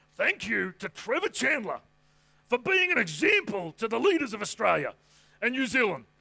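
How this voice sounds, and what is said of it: Imitates another person's voice. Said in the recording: “That was my Brian Houston impression. No good?”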